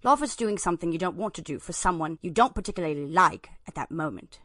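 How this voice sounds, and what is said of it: Put-on British accent. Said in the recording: “Why don't you try reading this in a British accent?”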